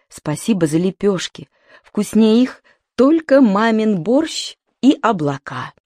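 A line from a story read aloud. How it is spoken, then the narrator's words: Tender whisper. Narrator (Russian): Сережик ласково прошептал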